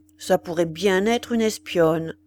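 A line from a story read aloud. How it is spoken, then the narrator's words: Grumbled. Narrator (French): L'un d'eux grommela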